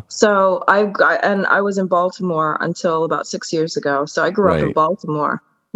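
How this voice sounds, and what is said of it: American accent. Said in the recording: “you sound very American”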